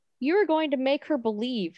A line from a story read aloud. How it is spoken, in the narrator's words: Henry says